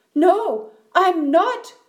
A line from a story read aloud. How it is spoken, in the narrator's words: cried the voice